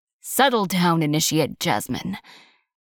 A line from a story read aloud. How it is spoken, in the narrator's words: Magistrate Magnus growled